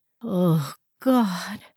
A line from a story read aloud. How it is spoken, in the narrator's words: she moaned